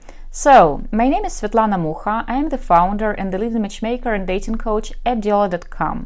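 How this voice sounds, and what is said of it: Russian accent. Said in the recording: “listen to my Russian accent”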